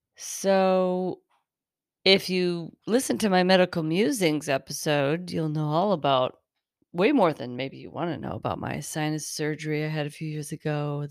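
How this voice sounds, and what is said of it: Slightly raspy voice. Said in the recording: “my voice sounds a little bit more raspy tonight”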